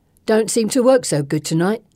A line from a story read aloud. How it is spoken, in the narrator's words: Bessie grumbles